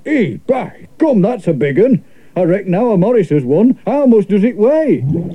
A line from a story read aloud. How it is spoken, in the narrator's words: The whale said